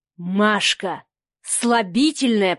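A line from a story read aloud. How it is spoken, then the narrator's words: Hissed. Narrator (Russian): прошипел он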